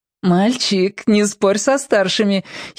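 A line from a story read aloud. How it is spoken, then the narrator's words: Giggling. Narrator (Russian): хихикнул Марко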